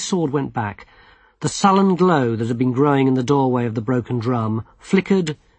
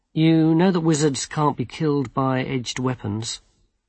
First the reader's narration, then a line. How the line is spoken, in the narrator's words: Withel smiled coldly